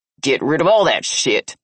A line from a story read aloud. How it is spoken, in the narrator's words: Hank growled